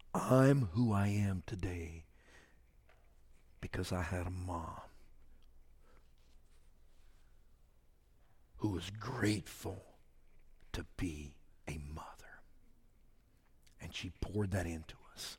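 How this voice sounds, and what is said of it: Whispering. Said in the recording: “sorry for whispering”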